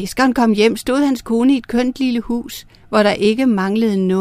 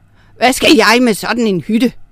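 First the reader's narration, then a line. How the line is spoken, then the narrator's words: Snapping. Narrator (Danish): vrissede hun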